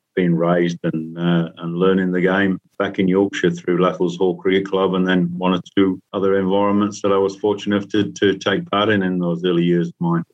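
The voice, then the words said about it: Hybrid Yorkshire and Kiwi accent. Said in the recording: “I've got a hybrid accent, which most people think I'm Australian ... the Yorkshire accent's sort of gone a little bit and it's now hybrid with the Kiwi twang”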